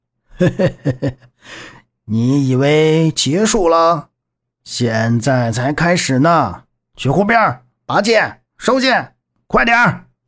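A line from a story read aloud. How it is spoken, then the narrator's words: Almost roaring. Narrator (Chinese): 乐逍遥几乎是用吼的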